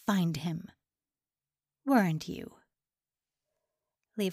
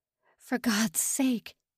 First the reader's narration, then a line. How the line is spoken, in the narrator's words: he croaked